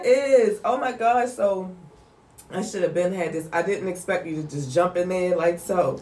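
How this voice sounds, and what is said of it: Nasal, congested voice. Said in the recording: “I sound a little nasally.”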